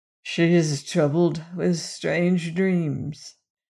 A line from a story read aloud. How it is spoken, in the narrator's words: he said very huskily